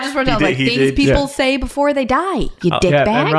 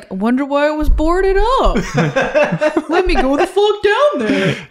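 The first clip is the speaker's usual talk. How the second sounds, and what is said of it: Goofy voice impression of Ron Livingston. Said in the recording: “did an impression of Ron Livingston by putting on the Goofy voice”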